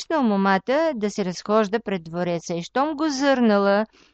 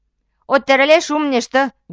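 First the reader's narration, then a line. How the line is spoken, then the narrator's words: Young man shouting. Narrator (Bulgarian): викнал момъкът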